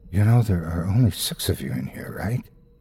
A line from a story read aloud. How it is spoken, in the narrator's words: whispers in my ear